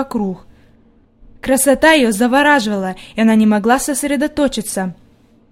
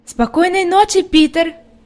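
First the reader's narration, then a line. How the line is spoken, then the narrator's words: Shouted. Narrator (Russian): крикнула Хайди, заметив, что он не собирается подходить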